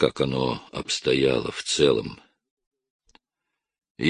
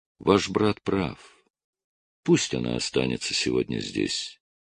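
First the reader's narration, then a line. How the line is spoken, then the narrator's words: Soft German-accented voice. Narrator (Russian): Своим мягким голосом с немецким выговором Ева Браун сказала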